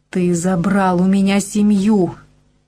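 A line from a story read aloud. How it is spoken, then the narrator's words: Furious roar. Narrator (Russian): взревела она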